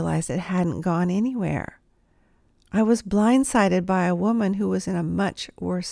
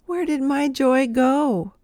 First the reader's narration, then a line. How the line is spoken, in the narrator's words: As I was bawling down Broad Street, I thought